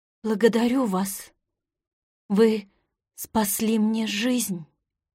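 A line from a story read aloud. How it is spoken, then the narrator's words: Weak voice. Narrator (Russian): сказала слабым голосом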